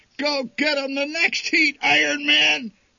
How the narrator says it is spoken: bellowed the old man

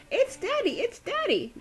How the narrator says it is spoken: Daisy squealed

